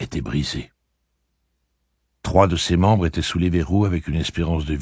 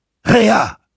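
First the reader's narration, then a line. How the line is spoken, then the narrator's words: Exclaimed. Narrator (French): s'écria-t-elle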